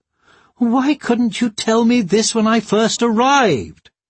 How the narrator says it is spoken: cried Maureen

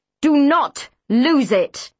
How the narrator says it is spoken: Neptune bellowed at Mr

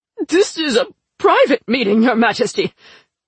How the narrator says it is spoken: Mistress Clave sputtered

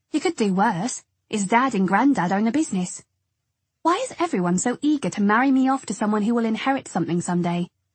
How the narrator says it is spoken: I snapped

